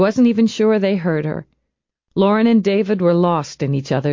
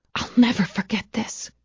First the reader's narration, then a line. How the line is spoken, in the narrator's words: she whispered